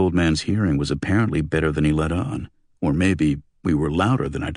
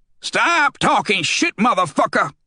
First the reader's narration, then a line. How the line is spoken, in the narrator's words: Luther shouted